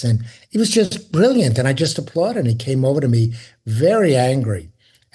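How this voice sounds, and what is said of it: Thick Brooklyn accent. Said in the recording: “My Brooklyn accent ... a thick Flatbush accent”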